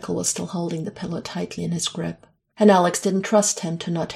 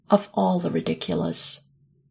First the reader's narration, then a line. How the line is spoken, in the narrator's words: Alex snorted